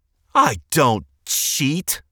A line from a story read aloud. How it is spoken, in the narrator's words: Liam exclaimed